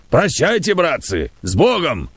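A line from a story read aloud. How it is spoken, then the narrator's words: Shouted. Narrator (Russian): крикнул Кузьмичев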